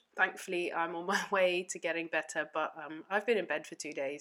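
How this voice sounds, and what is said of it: Muffled voice from a cold. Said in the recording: “my voice is a bit muffled, and that's because I'm experiencing a cold”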